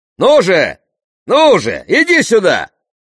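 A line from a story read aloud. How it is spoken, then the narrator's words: Shouting, retreating. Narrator (Russian): кричал Тесей, отступая к стене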